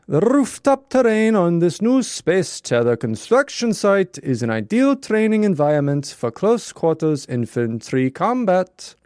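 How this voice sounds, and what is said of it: Mixed put-on Mr. Bean and Dracula accent. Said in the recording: “You sounded like Mr. Bean in Rat Race. ... It's like Mr. Bean and Dracula.”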